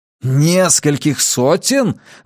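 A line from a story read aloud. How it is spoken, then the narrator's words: Exclaiming. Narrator (Russian): воскликнул я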